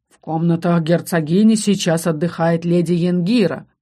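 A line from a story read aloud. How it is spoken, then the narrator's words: Growling voice. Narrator (Russian): голос звучал рычанием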